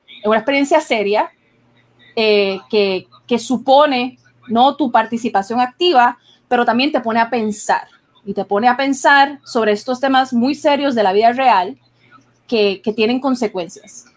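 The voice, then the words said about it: Strange accent with Colombian influence. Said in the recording (Spanish): “si mi acento suena extraño, es porque ayer estuve como cuatro horas hablando con, con colombianos ... tiene un acento cabrón”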